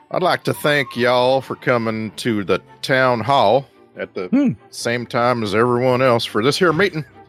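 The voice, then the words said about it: Put-on small-town sheriff accent. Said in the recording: “I always had this accent”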